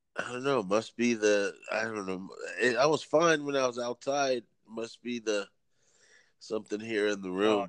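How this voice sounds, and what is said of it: Stuffy, congested-sounding voice. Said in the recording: “I sound weird. My allergies decided to kick in.”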